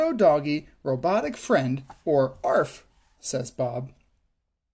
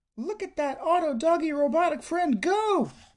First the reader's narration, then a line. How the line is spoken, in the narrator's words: Bingo shouts